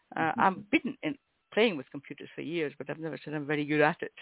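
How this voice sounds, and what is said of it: Scottish accent. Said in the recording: “I'm in Scotland, so we all sound, you know, guttural and dour ... I love yours”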